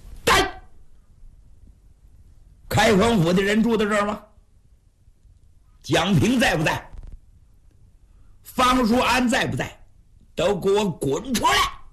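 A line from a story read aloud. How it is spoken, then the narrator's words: Loud yelling. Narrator (Chinese): 他这大山大叫这么一喊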